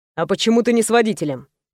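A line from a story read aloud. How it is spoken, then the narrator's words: Stern, scolding question. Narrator (Russian): Довольно строго спросил меня Роман, словно отчитывая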